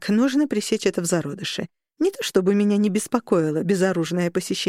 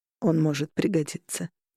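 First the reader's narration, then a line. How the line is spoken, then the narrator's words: Quiet. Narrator (Russian): тихо сказал Корнелиус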